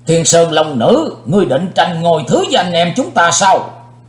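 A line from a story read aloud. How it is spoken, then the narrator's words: Furious loud shout. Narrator (Vietnamese): Đại Ái Phương Sóc dĩ vô lượng tức giận quát to lên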